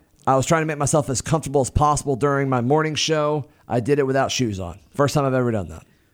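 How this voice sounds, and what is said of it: Rough, unwell-sounding voice. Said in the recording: “I sound terrible ... saying, "You sound terrible." ... I feel like death.”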